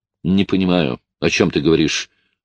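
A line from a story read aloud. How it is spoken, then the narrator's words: Cold. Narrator (Russian): холодно произнесла Джин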